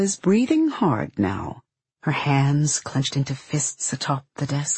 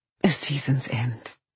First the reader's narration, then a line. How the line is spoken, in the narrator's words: the woman says it almost softly